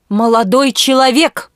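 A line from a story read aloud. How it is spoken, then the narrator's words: Booming. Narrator (Russian): прогремел он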